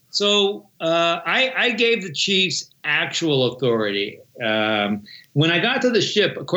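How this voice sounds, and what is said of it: Usual voice. Nothing is said of it.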